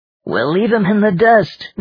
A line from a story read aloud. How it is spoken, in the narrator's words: Richard scoffed